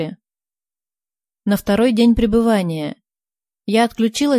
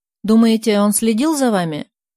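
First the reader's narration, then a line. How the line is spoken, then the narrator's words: Plain question. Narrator (Russian): спросила Соня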